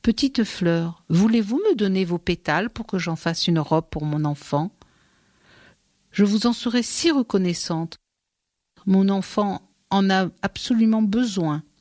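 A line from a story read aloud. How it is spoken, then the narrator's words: Caressing voice. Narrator (French): elle dit aux fleurs d'une voix caressante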